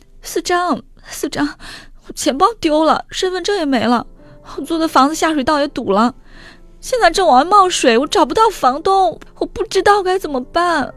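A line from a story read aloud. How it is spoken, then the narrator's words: Crying over the phone. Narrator (Chinese): 何玉在电话里哭着说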